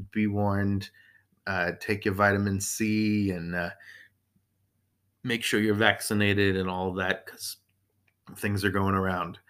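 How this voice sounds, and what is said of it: Hoarse voice. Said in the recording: “you can hear me clearing my throat ... My voice is a little hoarse.”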